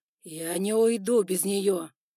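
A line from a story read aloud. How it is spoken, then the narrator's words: Spider roaring. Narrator (Russian): проревел паук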